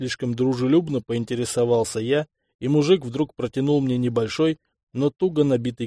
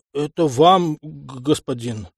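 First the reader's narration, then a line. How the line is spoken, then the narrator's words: Stuttering peasant mutter. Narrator (Russian): Заикаясь, пробормотал крестьянин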